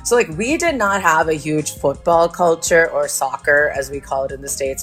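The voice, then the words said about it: American accent, hard to place. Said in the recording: “Now, I am an American. I know that this accent is really hard to nail down”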